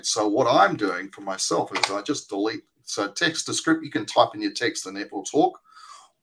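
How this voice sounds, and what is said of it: Australian accent. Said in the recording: “my Australian accent.”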